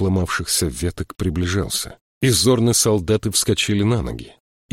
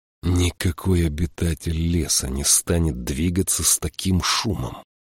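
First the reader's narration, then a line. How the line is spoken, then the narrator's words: Angry hiss. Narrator (Russian): Прошипел Джошуа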